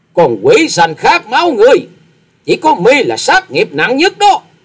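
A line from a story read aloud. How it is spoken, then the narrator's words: Angry loud shout. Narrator (Vietnamese): Ni Ni đạo cô giận dữ thét to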